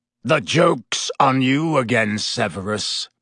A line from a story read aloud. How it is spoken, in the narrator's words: Black snarled